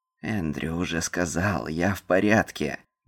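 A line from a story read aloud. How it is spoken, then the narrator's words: Gruff mutter. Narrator (Russian): буркнул Нил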